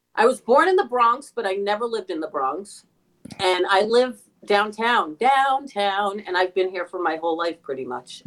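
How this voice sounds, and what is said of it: New York accent. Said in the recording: “you have a very definite New York accent ... it's so nice to hear a New York accent”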